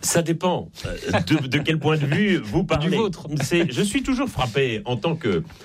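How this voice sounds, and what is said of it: Slight Belgian French accent. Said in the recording (French): “ça s'entend un peu d'ailleurs à mon accent. Je suis né en Belgique”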